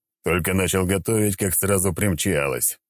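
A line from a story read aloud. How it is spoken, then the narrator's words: Grumbled. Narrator (Russian): проворчал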